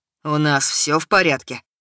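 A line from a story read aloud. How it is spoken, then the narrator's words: Hollow muffled voice. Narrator (Russian): задал вопрос Кирилл глухим голосом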